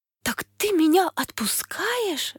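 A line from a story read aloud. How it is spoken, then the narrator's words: Princess exclaiming. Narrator (Russian): воскликнула принцесса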